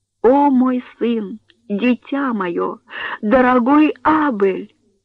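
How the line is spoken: Loud sobbing. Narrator (Russian): Берта громко рыдала

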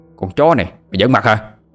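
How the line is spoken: Burly young man shouting. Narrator (Vietnamese): Một tên thanh niên lực lưỡng liền quát lên

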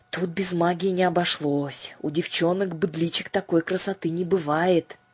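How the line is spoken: Loud whisper. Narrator (Russian): громко шепнул кто-то

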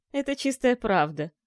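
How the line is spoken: Very pleased laughter. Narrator (Russian): рассмеялся наместник, довольный до нельзя

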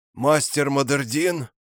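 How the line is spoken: Wheezing with effort. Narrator (Russian): Просипел он, и я видел, что каждое слово выходит из него с трудом

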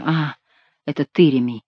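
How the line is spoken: Mutter. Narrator (Russian): пробормотал он

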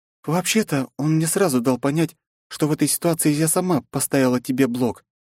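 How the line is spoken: Plain. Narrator (Russian): ответила княжна

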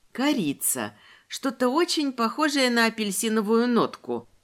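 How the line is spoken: Whispered. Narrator (Russian): прошептала я

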